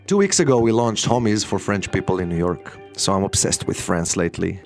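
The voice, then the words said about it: Foreign accent. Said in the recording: “I'm an entrepreneur with an accent. I'm also a father with an accent.”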